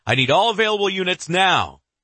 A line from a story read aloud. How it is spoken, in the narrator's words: he shouts into the phone